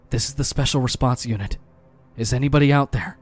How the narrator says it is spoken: Joan pressed the button on his radio and said as quietly as possible

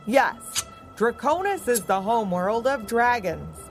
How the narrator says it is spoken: boomed the head scene shifter

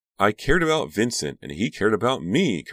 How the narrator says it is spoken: Karina cried

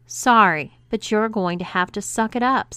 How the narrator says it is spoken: said May firmly

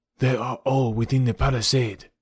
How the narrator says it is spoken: he whispered

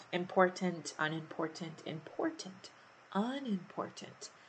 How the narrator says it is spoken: he started whispering to himself

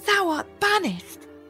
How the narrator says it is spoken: cried

